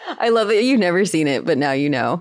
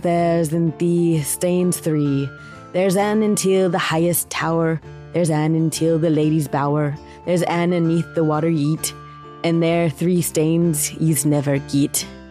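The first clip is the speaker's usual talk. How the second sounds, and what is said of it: Put-on Scottish accent. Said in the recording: “You do Scottish accent. I know it's learned from the Traitors.”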